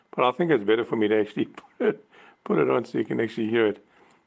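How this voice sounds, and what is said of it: Hoarse, strained voice. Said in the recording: “I'm battling, I think I'm losing my voice”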